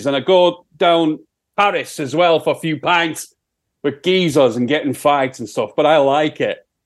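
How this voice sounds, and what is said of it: Put-on Sheffield accent. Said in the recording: “That's a funny accent you have there. ... That's my Sheffield accent”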